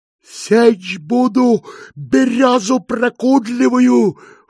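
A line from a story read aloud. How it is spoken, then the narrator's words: Shout. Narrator (Russian): крикнул Иона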